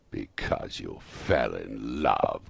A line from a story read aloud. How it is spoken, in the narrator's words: growled Scrooge, as if it were the only thing in the world more ridiculous than a Merry Christmas